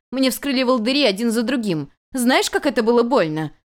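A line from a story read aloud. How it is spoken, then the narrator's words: Noblewoman shouting. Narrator (Russian): кричала благородная супруга Хуэй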